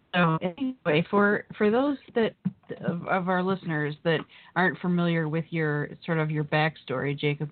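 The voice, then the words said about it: Hoarse, strained voice. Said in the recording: “<clears throat> Uh, pardon me, where as I clear my throat, I'm losing my voice here today.”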